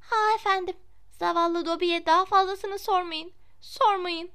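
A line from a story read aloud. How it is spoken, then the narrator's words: Moaning creature. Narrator (Turkish): diye inledi cin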